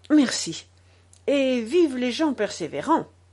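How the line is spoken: Locksmith's deep exclamation. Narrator (French): s'exclama le serrurier de sa voix profonde

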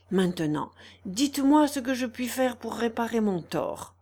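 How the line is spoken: Trembling voice. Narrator (French): reprit Monsieur de Bois-Guilbault d'une voix tremblante

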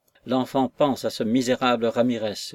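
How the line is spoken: Plain. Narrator (French): dit-elle

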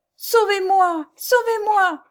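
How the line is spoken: Faint shout. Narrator (French): cria Jeanne d'une voix défaillante

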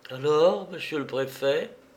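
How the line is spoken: Trembling voice. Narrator (French): articula Florence d'une voix qui tremblait

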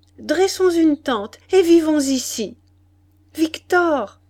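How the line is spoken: Shouting. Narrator (French): cria-t-elle

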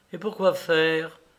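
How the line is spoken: Careless tone. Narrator (French): dit-elle d'un ton négligent

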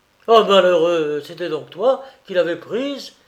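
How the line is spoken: Frantic outburst. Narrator (French): s'écria Tancrède hors de lui

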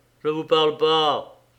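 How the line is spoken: Curt retort. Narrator (French): répliqua sèchement Bouvreuil

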